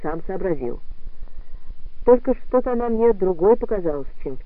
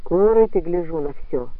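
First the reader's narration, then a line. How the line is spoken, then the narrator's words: Dry. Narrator (Russian): сухо промолвил Тихомилов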